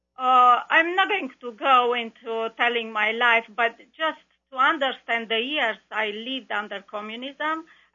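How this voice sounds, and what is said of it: Romanian accent in English. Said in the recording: “we can tell by your accent, you certainly aren't from this country... I hope that everybody would be able to understand my accent... your experience in Romania”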